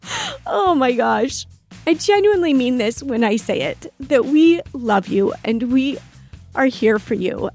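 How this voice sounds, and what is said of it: Emotional, voice close to tears. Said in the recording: “I'm getting emotional.”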